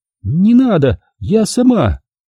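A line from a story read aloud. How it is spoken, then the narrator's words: Weak squeak. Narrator (Russian): что-то слабо пискнуло слева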